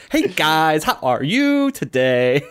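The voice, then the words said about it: Sing-songy imitation of another person's voice. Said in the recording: “He would be all sing-songy ... That was my Aziz impression. I don't know how good that was.”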